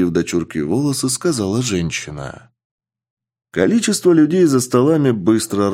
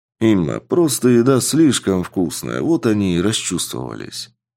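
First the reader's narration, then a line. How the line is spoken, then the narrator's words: Calm reply while eating. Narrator (Russian): спокойным голосом ответил мужчина, поглощая котлеты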